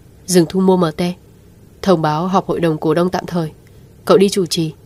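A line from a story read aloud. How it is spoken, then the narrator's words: Cold command. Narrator (Vietnamese): Lãnh Tĩnh Hàn lạnh lùng phân phó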